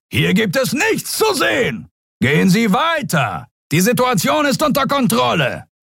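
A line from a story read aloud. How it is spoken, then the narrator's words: Bellowing at crowd. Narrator (German): zu der gaffenden Menge brüllte er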